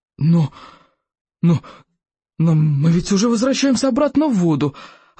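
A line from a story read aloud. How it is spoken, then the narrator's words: Terrified stammering. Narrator (Russian): От ужаса большегрудая Берта начала заикаться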